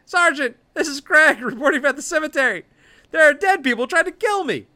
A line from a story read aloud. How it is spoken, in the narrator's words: The wounded officer yells into it